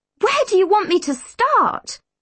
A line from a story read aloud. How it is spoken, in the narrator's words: I spluttered